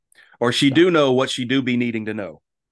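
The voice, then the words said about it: Put-on nonstandard dialect of a character. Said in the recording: “I don't like the way Ileana speak. ... It's my hard, favorite accent. ... It is so unique and so different.”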